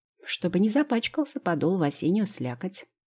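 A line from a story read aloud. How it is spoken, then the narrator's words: Plain. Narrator (Russian): ответила Лео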